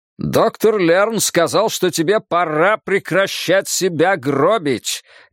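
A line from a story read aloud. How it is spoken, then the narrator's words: Loud bark. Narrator (Russian): гаркнул Джерри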